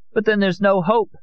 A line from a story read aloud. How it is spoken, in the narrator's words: Amparo cried